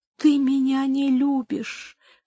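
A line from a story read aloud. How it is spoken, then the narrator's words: Whisper. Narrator (Russian): прошептал Горацио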